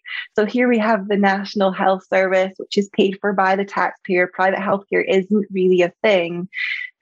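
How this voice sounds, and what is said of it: Scottish accent. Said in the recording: “you probably heard from my accent, I'm from Scotland”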